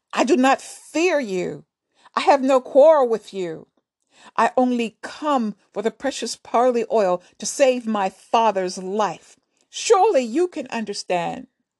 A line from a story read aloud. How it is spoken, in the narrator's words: he shouted